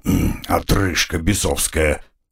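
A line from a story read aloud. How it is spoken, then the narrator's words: Grumbling. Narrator (Russian): проворчал он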